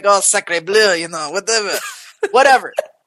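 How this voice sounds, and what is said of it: Exaggerated bad French accent. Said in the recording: “a really terrible French accent ... this French accent”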